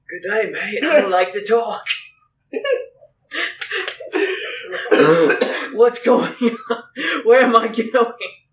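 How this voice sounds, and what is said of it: Cartoonish character voice. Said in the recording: “Do the Mizzetto voice”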